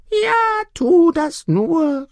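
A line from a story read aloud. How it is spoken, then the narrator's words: Hen calling out. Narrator (German): rief die Henne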